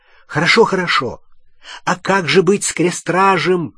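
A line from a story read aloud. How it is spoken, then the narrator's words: Shouting. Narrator (Russian): крикнул Гарри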